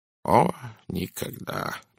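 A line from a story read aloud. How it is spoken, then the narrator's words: Muttered. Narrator (Russian): пробормотал он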